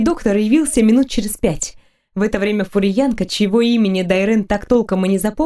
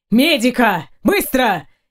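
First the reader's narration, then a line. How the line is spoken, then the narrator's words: Shout. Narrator (Russian): крикнул в коридор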